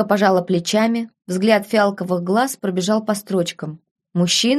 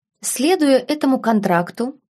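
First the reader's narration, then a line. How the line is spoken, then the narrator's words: Calm. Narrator (Russian): спокойно произнесла Беладонна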